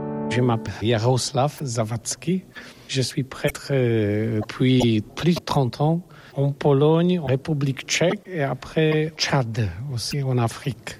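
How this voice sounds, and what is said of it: Foreign accent in French. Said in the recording (French): “vous avez un accent.”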